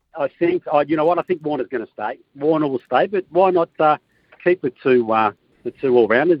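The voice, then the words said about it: Australian accent. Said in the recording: “you're pro-Australian. Yeah. We know that from the accent.”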